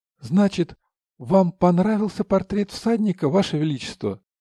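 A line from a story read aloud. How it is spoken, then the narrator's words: Involuntary exclamation. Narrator (Russian): невольно воскликнул Аури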